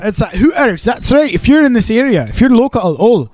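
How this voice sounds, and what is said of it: Poor put-on Glaswegian accent. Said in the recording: “how was that accent? ... That's shit. Well, if you're in Glasgow, it'd be fine.”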